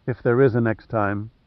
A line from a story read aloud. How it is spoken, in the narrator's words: she murmured softly